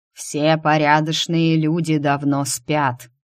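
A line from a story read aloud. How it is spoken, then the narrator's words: Habitual grumbling. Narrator (Russian): встретил привычным ворчанием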